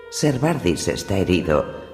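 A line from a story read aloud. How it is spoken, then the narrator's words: Worried voice. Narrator (Spanish): dijo Ser Roderick con voz preocupada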